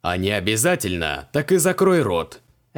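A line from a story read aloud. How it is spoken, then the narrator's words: Barking snap. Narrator (Russian): рявкнул Креол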